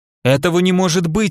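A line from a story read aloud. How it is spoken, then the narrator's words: Exclaiming in disbelief. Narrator (Russian): воскликнула Саша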